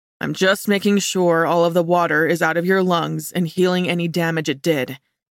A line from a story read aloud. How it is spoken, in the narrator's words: he explained, his tone oddly flat